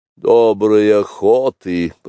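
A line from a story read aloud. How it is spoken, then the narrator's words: Grumbling. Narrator (Russian): проворчал, наконец, Ка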